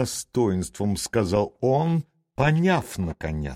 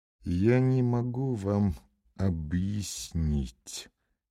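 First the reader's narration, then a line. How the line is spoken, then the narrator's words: Quiet, slow, suppressed trembling. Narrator (Russian): тихо и медленно, стараясь скрыть дрожание своих скул, заговорил Левин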